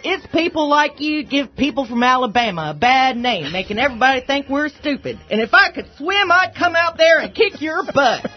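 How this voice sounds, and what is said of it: Convincing put-on regional accent. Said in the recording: “that accent is just a little bit too good. It just comes far too easily.”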